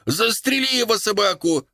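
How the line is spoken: Frenzied furious shout. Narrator (Russian): кричала обезумевшая от злобы Пэг

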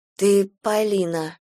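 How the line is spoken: Hoarse. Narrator (Russian): сказала хрипло Галя

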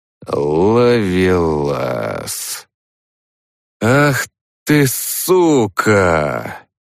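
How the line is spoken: Drawling. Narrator (Russian): протянул я

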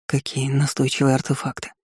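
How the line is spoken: Quiet mutter. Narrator (Russian): Слава пробормотал негромко

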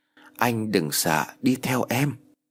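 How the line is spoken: Cold, no longer shy. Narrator (Vietnamese): Cô nói bằng cái giọng lạnh lùng khác hẳn với giọng e thẹn lúc trước

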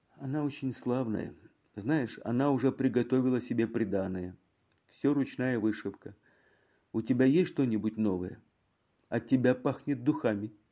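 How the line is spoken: Sleepy whisper. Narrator (Russian): госпожа Мегре шепнула в полусне

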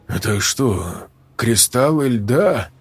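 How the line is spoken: Unsure question. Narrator (Russian): неуверенно спросил куратор

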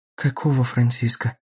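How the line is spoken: Knowing, resigned whisper. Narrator (Russian): прошептала она, уже зная ответ

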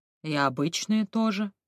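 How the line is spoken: Plain. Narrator (Russian): ответил

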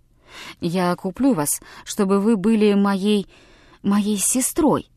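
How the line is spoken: Whispered. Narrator (Russian): шепнул Томми Эл-Су

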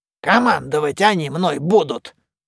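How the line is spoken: Grumbling. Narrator (Russian): проворчал мумий

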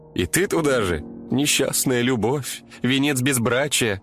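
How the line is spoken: Laughing. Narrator (Russian): засмеялась коллега

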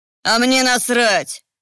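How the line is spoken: Snapping, rude. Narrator (Russian): огрызнулся старший по цеху

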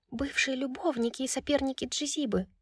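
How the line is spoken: Muffled whisper. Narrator (Russian): прошептала из-под накидки Лихаба

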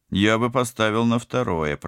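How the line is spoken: Grumbling. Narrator (Russian): проворчал пилот

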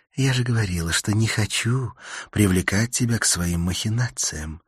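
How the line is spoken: Whisper in ear. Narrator (Russian): прошептала она мне на ухо

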